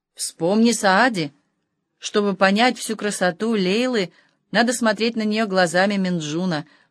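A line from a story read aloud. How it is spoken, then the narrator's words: Plain. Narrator (Russian): ответил Хаджа Насреддин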